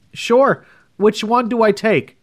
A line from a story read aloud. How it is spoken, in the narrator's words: yelled back